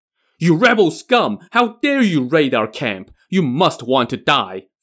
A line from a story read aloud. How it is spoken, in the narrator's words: Feng Lin roared angrily